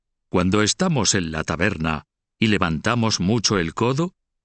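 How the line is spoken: Plain. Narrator (Spanish): dijo Roberto

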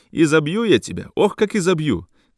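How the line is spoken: Mother shouting. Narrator (Russian): кричала мать

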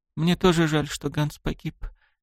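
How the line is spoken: Said quietly. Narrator (Russian): тихо промолвила Мияме

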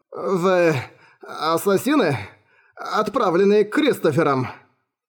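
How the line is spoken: Weak mumble. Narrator (Russian): Слабым голосом пробормотал

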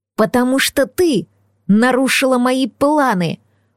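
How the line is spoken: Hiss. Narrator (Russian): прошипел Блейк Дариус

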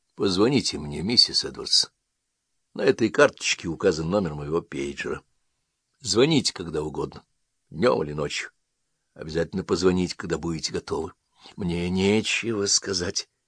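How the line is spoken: Quiet, prayer-like. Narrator (Russian): Тихо, как произносит молитву, он сказал

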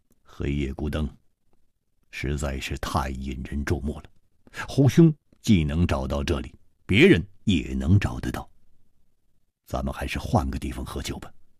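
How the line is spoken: Low, deep voice. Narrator (Chinese): 沉声说

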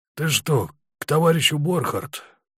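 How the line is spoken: Hoarse question. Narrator (Russian): спросил он хрипло

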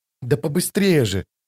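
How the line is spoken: Urgent whisper. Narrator (Russian): шепотом подгоняла его Чани

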